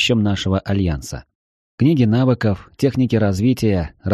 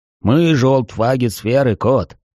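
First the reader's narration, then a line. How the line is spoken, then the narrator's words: Deep bass voice. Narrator (Russian): пробасил Трайнул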